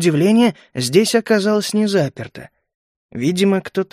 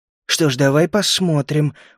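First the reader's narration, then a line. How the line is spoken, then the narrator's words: Gruff mutter. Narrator (Russian): буркнул я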